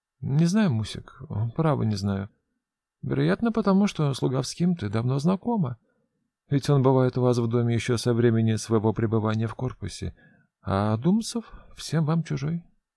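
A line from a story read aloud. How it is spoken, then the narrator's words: Quiet reply. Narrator (Russian): тихо отвечает бледная девушка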